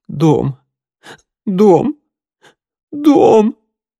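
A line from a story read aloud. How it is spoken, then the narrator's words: Sobbing, repeating through tears. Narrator (Russian): разрыдалась, сквозь слезы повторяя одно слово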